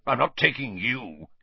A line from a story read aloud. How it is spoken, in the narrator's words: he snarled